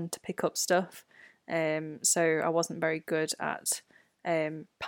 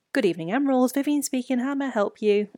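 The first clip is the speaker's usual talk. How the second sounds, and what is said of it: Polite telephone answering voice. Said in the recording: “that was our answering telephone voice”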